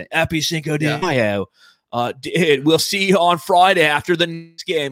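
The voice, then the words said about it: Weird put-on accent. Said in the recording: “I went into like a weird accent.”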